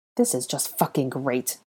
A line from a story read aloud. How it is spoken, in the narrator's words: Malfoy muttered furiously